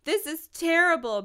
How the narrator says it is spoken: moaned Christy

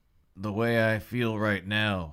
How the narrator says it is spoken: he said, yawning

